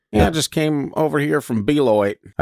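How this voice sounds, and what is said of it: Exaggerated hillbilly accent. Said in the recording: “I'd keep giving them really hillbilly accents.”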